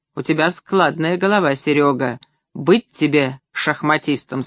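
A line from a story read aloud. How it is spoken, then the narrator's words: Plain. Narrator (Russian): сказал отец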